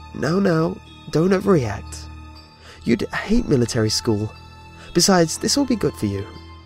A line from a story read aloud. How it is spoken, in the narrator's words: My caseworker laughed too, obviously, and said